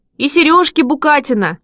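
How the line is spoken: Children shouting together. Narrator (Russian): закричали ребята

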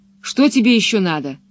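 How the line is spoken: Angry question. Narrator (Russian): уже совсем сердито спросил он у Пеппи

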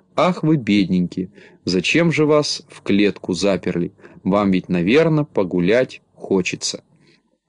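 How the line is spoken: Sad sighing. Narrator (Russian): она грустно вздыхала и говорила

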